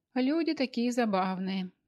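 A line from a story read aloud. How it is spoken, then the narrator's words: Sighing. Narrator (Russian): вздохнул он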